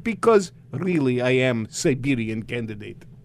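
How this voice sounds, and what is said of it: Put-on Russian accent. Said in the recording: “I'm speaking Russian accent”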